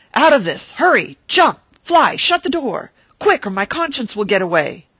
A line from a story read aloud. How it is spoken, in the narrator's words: I sprang up in consternation and shouted